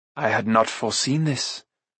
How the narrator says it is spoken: Gwydion murmured

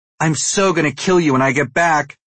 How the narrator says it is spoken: Mindy yells at the fleeing car

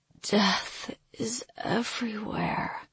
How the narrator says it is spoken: she slurred, still not completely herself

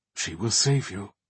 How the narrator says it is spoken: the one-time captain murmur

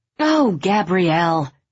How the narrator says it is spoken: her mother cried

